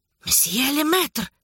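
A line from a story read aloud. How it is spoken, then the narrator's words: Hissed. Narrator (Russian): прошипел Дюма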